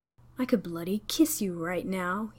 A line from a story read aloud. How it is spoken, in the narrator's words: he breathed